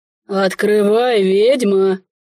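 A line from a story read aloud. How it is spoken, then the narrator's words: Quieter deep bass voice. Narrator (Russian): Уже тише пробасил незваный гость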